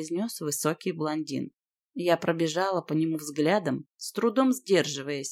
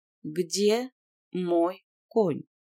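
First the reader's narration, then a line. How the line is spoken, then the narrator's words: Slow, pausing after each word. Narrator (Russian): медленно произнесла я, делая паузу после каждого слова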